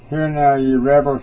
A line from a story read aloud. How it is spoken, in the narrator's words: said